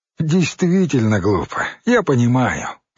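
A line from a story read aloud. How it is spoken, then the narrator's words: Macho man, cheerful. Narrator (Russian): радостно сказал мачо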